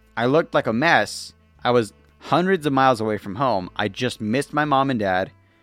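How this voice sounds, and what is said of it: Emotional, choked-up voice. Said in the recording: “You can hear me getting emotional right now, right?”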